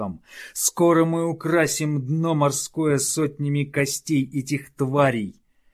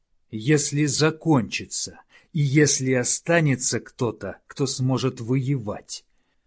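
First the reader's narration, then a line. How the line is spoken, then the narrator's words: Gloomy growl. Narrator (Russian): хмуро рыкнул Ювенис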